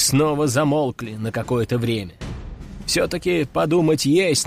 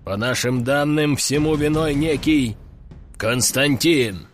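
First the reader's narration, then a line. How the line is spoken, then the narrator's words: Deep voice. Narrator (Russian): пробасил начальник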